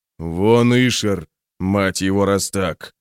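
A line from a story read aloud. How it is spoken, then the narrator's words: Growled. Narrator (Russian): прорычал Броуд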